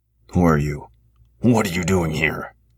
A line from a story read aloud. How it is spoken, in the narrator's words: growled the human